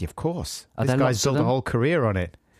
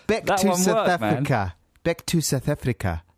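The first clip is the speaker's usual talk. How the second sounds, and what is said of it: Put-on South African accent. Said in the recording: “This is another South African one ... You're saying it with a slight... ... phonetic phrases that just, without any effort, make you sound foreign”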